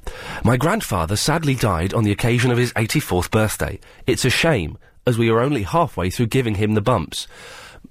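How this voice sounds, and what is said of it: Serious, solemn reading voice. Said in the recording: “did it in a serious voice”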